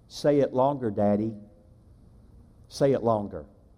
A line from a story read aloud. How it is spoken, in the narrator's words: in a small, soft, pleading voice, she simply said this